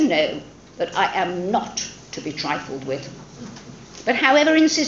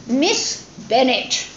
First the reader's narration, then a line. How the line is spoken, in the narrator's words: replied her ladyship in an angry tone